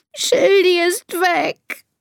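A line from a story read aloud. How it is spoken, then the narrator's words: Sobbing. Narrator (German): schluchzt Elisa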